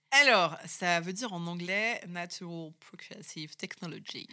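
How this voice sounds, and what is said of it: English phrase with French accent. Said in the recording (French): “Vous avez un accent donc, merveilleux.”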